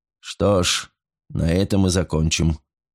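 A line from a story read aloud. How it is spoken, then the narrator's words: Slightly tired. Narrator (Russian): проговорил Файндхор немного устало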